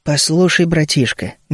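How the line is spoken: Soft interruption. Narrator (Russian): мягко перебил я его

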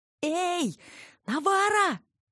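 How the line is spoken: Yelling at full voice. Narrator (Russian): заорала я, что есть мочи

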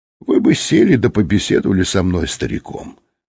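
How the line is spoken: Softly spoken. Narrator (Russian): сказал он негромко

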